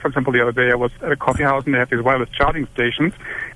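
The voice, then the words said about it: Talking very fast. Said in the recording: “Could I ask you to slow it down a little bit? ... It's hard to understand. ... You're talking really fast.”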